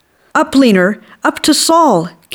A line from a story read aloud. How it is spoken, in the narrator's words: Katie shouted